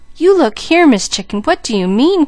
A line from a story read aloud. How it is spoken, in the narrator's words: cried Mickey wonderingly